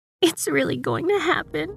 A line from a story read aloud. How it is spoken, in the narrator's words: sobbed